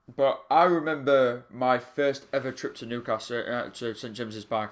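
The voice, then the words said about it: Yorkshire English accent. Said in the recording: “I'm completely different from the pair of uh, pair of you, as you can tell by the accent... I'm a little bit more Yorkshire born”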